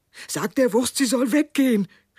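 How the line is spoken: Man calling out. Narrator (German): rief der Mann

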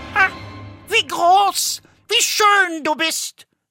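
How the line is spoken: Called out. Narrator (German): rief

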